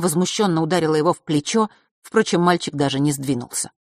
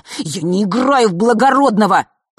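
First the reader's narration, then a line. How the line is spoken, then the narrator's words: Hissed reply. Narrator (Russian): прошипел в ответ Фэш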